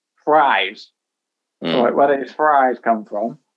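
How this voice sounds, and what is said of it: Put-on American accent. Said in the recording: “Great accent.”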